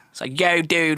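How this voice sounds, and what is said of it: Put-on Delaware County Philly accent. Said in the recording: “I don't know if you know the Delco accent, it's like ... It's like so Philly”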